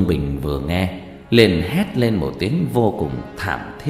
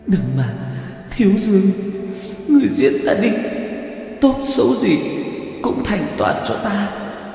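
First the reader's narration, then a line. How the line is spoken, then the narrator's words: Anguished pleading. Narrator (Vietnamese): khổ sở cầu xin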